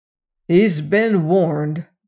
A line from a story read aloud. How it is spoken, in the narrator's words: growled Syme